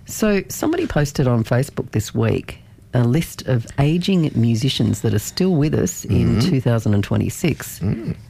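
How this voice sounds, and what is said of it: Slightly hoarse, croaky voice. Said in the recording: “I've got a bit of a frog in my throat.”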